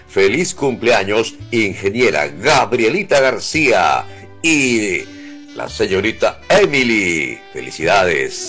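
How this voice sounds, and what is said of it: Sonorous male radio voice. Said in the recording (Spanish): “Voz sonora de la radio. Voz de hombre”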